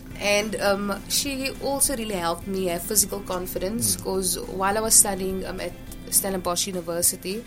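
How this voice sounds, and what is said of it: Distinctive accent, non-standard R sounds. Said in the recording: “my accent is not, it's very different, and especially my R ... having a standard English R”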